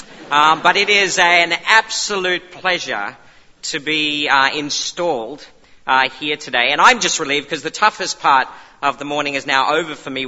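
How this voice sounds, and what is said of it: Australian accent. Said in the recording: “the accent is Australian. So I'm Australian.”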